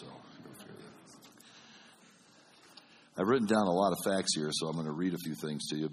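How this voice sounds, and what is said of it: Slightly congested, deep late-night radio voice. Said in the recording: “I have a little bit of a cold, so it sounds like I'm doing late night FM radio today”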